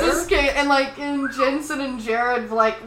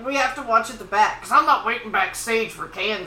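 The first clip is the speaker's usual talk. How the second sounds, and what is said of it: Imitates another person's voice. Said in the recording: “my Jensen impersonation.”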